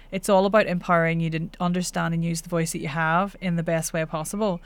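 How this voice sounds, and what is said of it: Northern Irish accent. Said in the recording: “I'm Northern Irish ... that's just my accent”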